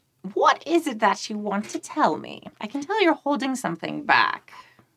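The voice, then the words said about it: Old lady character voice. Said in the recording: “I have to do my old voice.”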